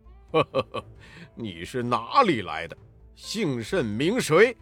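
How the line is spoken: Sneering laugh. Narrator (Chinese): 黑风怪呵呵冷笑道

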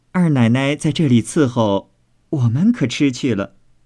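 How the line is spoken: Smiling. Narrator (Chinese): 鸳鸯因向凤姐笑道

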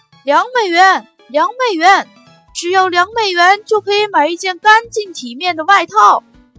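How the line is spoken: Hawking, calling out. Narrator (Chinese): 不停地叫卖

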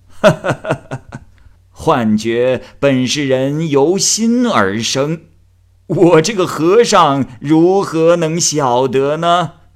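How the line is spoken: Laughing old monk. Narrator (Chinese): 老和尚笑着说

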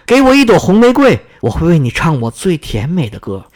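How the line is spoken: Loud bird voice. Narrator (Chinese): 夜莺大声说

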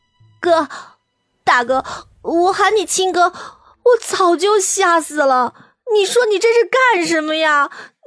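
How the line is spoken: Wailing, breaking down. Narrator (Chinese): 阮流然早就绷不住了，立刻嚎哭

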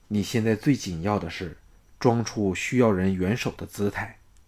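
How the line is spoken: Low voice. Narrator (Chinese): 项少龙低声说

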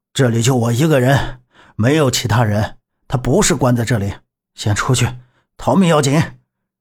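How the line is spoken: Breathless, panting. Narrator (Chinese): 夏叔大喘着说道

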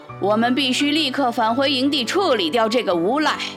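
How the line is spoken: Loud voice. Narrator (Chinese): 虎掌大声说

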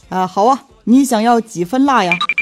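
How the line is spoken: Shopkeeper, warm smiling. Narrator (Chinese): 这老板是带着满满的微笑对我说

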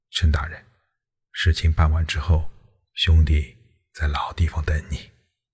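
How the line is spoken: Soft voice. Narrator (Chinese): 贾谊轻声道

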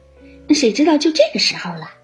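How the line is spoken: Laughing. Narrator (Chinese): 黛玉笑道

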